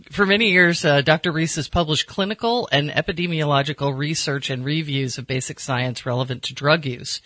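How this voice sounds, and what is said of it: American accent. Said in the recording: “my rotten American accent”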